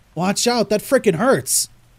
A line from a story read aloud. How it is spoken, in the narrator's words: I cried